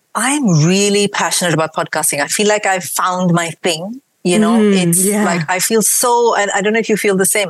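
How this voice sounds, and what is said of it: Mixed Indian and British accent. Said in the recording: “I've got a mix of an Indian accent and a British accent and this random mix of, I don't know how many accents”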